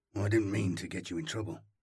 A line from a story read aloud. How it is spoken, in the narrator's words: Arvo mumbled